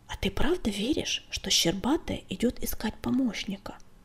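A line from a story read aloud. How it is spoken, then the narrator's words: Whisper in the ear. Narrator (Russian): шепнул он на ухо Огоньку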